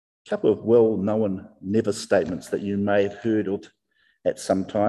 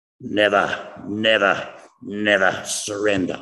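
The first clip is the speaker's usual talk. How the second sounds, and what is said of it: Winston Churchill impression. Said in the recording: “I hope I got the accent right. Of course, it's Sir Winston Churchill.”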